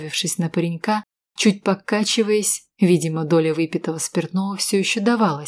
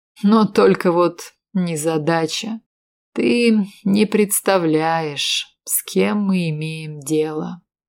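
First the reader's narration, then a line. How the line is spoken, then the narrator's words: Slow drawling voice. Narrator (Russian): сказал протяжным голосом Брэдли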